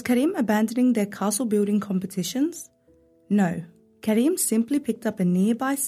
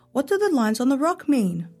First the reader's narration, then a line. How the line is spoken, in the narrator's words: Omar called out